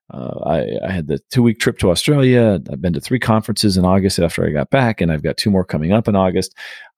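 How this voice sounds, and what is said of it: Worn-out, strained conference voice. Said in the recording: “pardon my voice. This is, I'll call it conference voice ... I'm just a little worn out”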